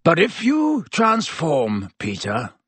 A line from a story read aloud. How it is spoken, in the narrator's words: growled Black